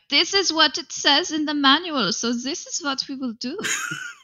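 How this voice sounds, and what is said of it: Silly fake German accent. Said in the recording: “I used a German, silly fake German accent there, right there”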